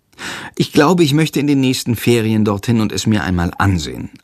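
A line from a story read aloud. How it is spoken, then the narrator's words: Plain answer. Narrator (German): antwortet Jendrik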